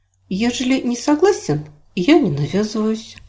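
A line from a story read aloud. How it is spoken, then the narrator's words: Calm reply. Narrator (Russian): спокойно ответила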